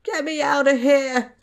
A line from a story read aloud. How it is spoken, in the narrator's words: Tom whimpered